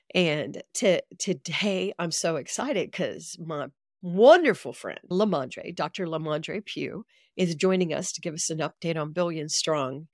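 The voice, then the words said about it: Slightly congested voice from a cold. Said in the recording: “I have a little bit of a cold.”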